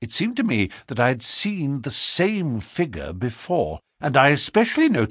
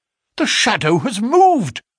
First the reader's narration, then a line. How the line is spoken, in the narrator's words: I cried